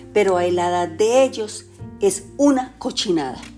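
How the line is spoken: Shouted. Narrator (Spanish): le gritó

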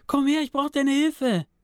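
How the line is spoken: Screaming. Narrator (German): schrie

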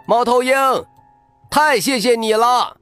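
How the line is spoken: Excited group shouting. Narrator (Chinese): 大家 激动的喊

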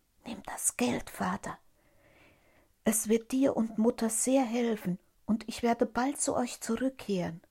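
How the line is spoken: Whispering in ear. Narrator (German): flüsterte ihm ins Ohr

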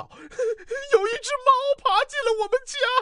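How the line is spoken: Scream. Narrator (Chinese): 那个声音尖叫道

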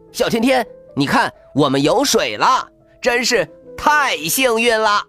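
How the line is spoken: Loud shout. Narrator (Chinese): 孙小空大声喊

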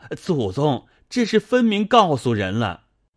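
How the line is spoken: Anxious cry. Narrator (Chinese): 急得明烟在后叫

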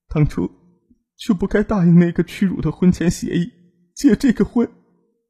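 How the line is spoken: Weeping bitterly. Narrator (Chinese): 周平也是痛哭流涕

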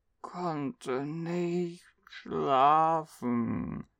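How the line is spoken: Sleepy child murmuring. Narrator (German): murmelte die 5-Jährige mit halb geschlossenen Augen

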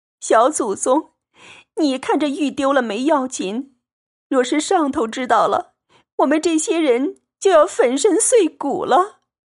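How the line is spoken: Anxious crying. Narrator (Chinese): 袭人等急得又哭道

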